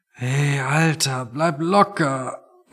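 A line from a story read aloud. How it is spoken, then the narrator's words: Quiet, pained. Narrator (German): meinte Toni und sprach leise, weil jedes Geräusch einfach noch zu viel für ihn war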